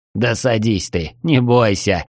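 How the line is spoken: Loud laughter. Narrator (Russian): расхохотался он

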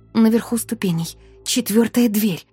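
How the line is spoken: Interrupting hiss. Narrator (Russian): прошипела я, прерывая его

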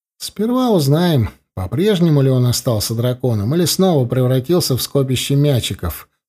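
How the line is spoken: Plain. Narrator (Russian): сказал я

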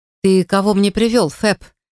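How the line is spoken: Mocking question. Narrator (Russian): насмешливо спросил Блейн

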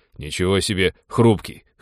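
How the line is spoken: Snort. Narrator (Russian): хмыкнул Тодор

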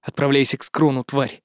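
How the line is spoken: Muttered. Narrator (Russian): пробормотал я

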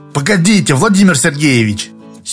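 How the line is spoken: Angry interruption. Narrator (Russian): сердито остановил его Быков

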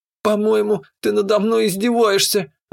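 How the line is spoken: Young woman's sigh. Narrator (Russian): вздохнула девица

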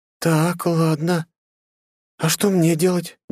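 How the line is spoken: Uncertain young woman. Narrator (Russian): неуверенно проговорила девушка

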